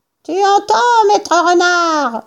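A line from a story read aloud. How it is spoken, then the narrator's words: Yelling down into a hole. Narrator (French): vociféra en se penchant et en hurlant dans le trou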